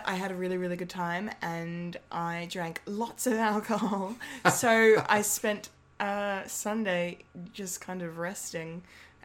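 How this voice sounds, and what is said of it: Slightly croaky voice. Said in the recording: “It's a little bit croaky. ... A little bit.”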